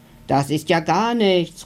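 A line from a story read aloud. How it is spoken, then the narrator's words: Calling out. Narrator (German): ruft der dicke Dino neben ihm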